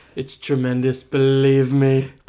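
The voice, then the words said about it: Donald Trump impression. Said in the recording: “your Trump impression”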